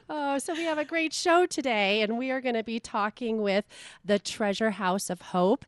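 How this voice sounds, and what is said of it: Low husky sexy voice. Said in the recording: “I had been fighting a cold, and I got this sexy voice now going ... I call him in my sexy voice ... I thought Kathleen Turner was here.”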